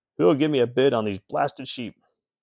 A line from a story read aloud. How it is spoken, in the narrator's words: he looked up and shouted